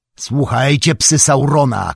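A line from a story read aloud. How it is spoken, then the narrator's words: Shouted. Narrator (Polish): krzyknął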